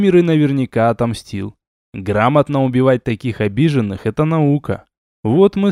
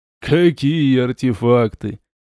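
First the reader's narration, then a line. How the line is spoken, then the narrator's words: Ghost's sly sneer. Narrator (Russian): ехидно ухмыльнулся призрак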